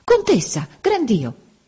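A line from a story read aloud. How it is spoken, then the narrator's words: Exclaiming. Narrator (Italian): A un tratto Don Cono esclamò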